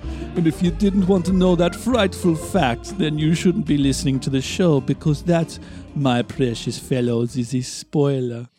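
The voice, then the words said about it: Put-on Dracula-style villain voice. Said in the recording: “What accent was that, and who are you being? ... It was supposed to be Vincent Price, but it turned into Dracula. ... That was Dracula.”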